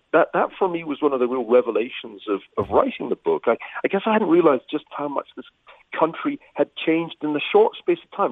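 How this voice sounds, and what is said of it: British accent. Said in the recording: “you can tell from my accent, I'm an immigrant originally from the UK”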